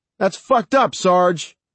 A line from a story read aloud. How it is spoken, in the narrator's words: Mike shouted